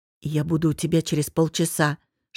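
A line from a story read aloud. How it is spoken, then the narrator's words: Whisper. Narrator (Russian): шепнул Эрли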